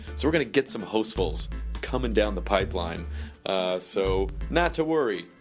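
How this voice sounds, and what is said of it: Raspy voice. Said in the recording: “with my raspy voice”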